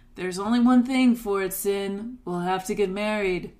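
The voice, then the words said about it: Imitates another person's voice. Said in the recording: “Did you like my impression? That's the best I had.”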